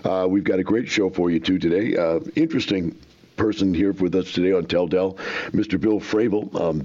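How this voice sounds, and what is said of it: Choppy voice from a cold. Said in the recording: “Coming off of a severe cold this weekend, and my voice is a little choppy”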